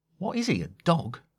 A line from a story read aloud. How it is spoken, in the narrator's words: Time said under her breath